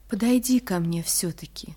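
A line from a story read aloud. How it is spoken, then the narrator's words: Soft and sad. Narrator (Russian): сказал мягко и грустно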